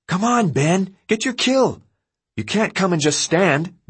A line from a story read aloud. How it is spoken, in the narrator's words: Deandra yelled, making standing sound like the most worthless thing in the world